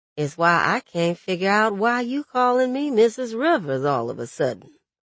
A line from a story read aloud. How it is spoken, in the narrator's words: Sharon grumbled